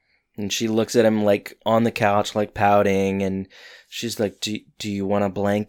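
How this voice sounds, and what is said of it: Usual voice. Nothing is said of it.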